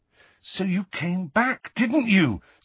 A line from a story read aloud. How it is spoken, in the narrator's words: said Harry urgently